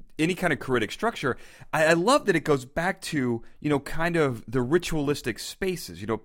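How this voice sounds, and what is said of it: American accent. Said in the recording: “It's my American accent.”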